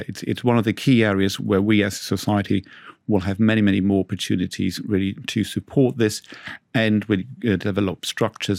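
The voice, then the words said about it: Slight non-native English accent. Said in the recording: “Do I notice a slight accent, maybe not as strong as mine, but ... I think that you are not English born.”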